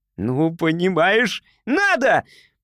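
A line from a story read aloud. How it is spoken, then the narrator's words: Shouting. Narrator (Russian): прокричал Кеша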